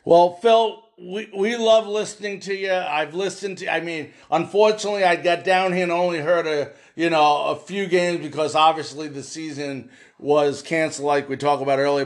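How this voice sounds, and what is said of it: New York accent. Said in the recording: “I can tell that accent that you've got, my parents sound like you. Where are you from? Are you from New York City?”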